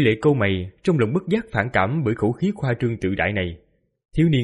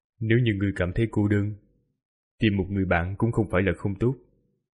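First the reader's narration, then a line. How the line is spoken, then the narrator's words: Soft. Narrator (Vietnamese): Quỷ Lệ khẽ nói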